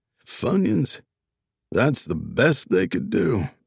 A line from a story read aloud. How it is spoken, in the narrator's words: a raspy voice called out